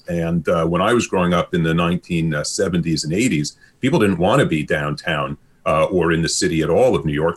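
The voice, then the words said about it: Brooklyn accent. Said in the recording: “this is not a Kitsilano accent. This is a Brooklyn accent.”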